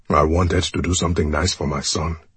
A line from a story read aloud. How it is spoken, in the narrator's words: he mutters